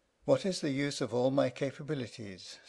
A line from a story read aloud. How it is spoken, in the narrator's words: sighed the old lamp